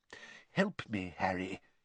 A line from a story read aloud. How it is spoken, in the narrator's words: he muttered